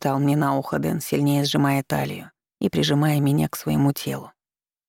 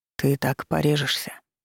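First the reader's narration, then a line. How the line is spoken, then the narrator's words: Whisper. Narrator (Russian): снова зашептал Дэн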